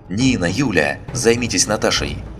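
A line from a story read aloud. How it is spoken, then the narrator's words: Sharp shout. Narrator (Russian): Лина прикрикнула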